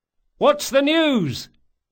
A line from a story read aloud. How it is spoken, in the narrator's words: Locke cried